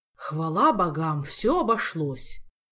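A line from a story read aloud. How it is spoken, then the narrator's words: Relieved sigh. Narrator (Russian): С облегчением вздохнул мэтр Истран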